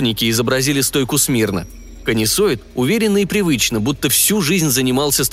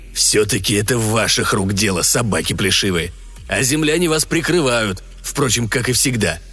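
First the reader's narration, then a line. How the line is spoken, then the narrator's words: Growled. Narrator (Russian): прорычал Урсуноид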